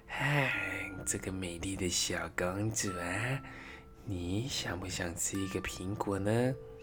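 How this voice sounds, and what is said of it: Strange disguised old woman voice. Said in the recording (Chinese): “把自己打扮成一个老太婆的模样 ... 发出奇怪的声音说”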